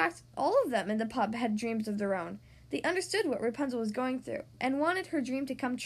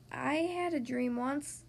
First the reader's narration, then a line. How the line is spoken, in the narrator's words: said one of the thugs softly